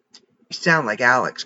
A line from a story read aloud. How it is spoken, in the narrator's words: grumbled Charlie